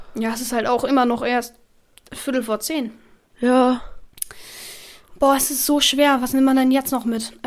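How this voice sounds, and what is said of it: Hoarse, nearly lost voice. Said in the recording (German): “meine Stimme ist so weg.”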